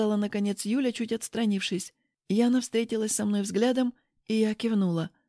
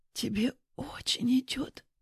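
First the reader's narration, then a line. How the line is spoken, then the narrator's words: Whispered. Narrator (Russian): прошептала Яна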